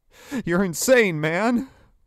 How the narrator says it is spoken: Ryan cried, his eyes wide with terror

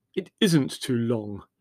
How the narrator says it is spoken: Leslie snapped irritably

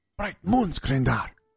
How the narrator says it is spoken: Sinj whispered, nearly spitting his coffee back out onto the floor

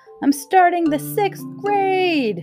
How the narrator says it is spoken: yelled, just to keep herself company

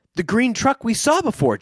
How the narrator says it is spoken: Joe exclaimed

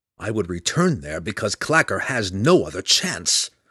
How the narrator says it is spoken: Drizzt retorted angrily

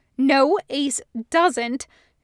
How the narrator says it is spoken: snaps

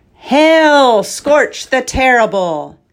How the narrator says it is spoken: he finally called out flatly

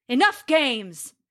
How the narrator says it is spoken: he bellowed

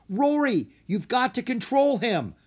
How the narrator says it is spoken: Drake yelled

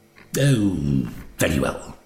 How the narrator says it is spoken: said gruffly

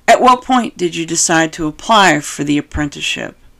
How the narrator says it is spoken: asked in a softer tone

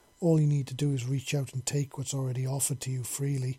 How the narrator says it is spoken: he said softly

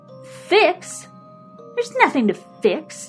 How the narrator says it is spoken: whined

